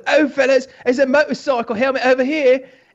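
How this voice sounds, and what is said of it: Put-on British accent. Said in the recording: “I did my British accent”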